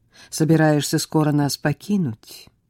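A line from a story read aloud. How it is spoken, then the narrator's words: Sigh. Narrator (Russian): вздохнула Оливия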